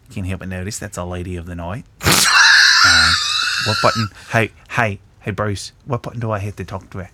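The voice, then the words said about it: Deliberately bad put-on Australian accent. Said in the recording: “I gotta do a shitty Australian accent.”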